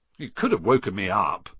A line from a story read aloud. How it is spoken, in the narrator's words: said Ron, crossly